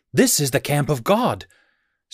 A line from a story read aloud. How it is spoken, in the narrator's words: he exclaimed